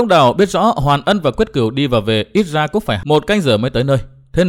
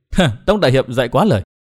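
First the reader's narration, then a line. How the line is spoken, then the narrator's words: Smiling. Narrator (Vietnamese): Đinh Phượng mỉm cười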